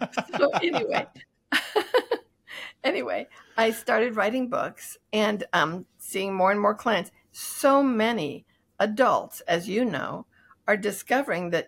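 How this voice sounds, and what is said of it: Scratchy voice. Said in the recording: “apologize for my voice quality if it's scratchy”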